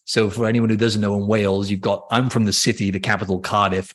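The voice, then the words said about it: Mixed, partly Welsh accent. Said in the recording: “your Welsh accent? ... It's kind of all over the place now. My accent.”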